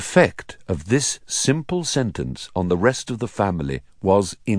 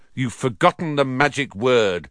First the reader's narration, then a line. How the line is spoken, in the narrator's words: said Harry irritably